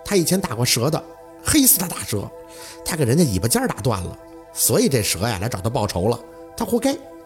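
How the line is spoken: Sudden laughter. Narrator (Chinese): 宝四却突然笑了

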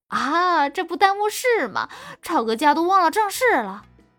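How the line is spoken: Woman laughing. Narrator (Chinese): 女人笑着说

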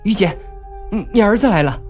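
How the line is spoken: Doctor calling. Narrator (Chinese): 有个医生叫了他一声

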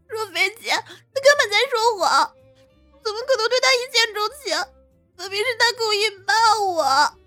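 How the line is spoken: Furious tearful complaint. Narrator (Chinese): 花韵霞……立即无比气愤了起来，朝着柳若飞哭诉道

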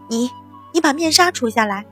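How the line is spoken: Startled loud shout. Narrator (Chinese): 淳于坚一愣之后大嚷

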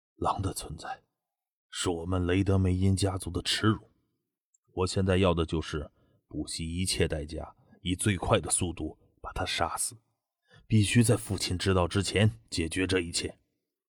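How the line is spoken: Low, grim young man. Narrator (Chinese): 棕红色短发青年脸色有些苍白，眼神阴沉着，低声道

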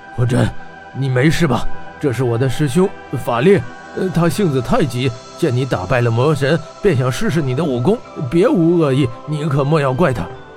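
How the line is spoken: Breathless, panting. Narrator (Chinese): 法竹气喘吁吁道

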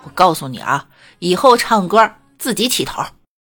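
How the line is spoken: Yelled. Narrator (Chinese): 然后他居然对我吼道

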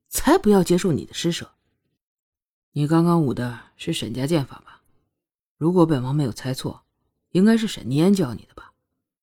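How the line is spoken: Cool refusal. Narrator (Chinese): 双月淡淡的拒绝

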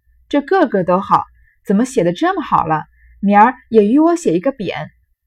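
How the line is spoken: Laughing. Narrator (Chinese): 黛玉笑道

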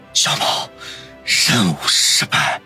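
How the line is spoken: Hoarse, stunned. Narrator (Chinese): 持枪男不敢置信地沙哑地说道

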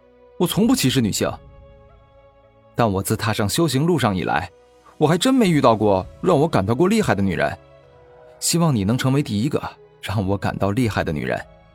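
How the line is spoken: Woman shouting loudly. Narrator (Chinese): 黑衣美女大声喊道

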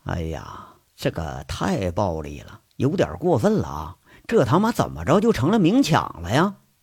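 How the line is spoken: Muttering. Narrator (Chinese): 杨伟在这喃喃地说着

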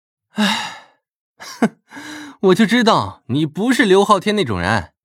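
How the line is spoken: Relieved, laughing. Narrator (Chinese): 张胖子长舒了一口气，笑道

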